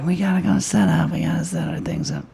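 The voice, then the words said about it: Imitates another person's voice. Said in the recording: “that's a good Nicole impression. It sounds exactly like”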